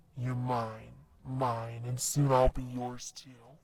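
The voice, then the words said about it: Demon voice. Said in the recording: “You want to hear my demon voice?”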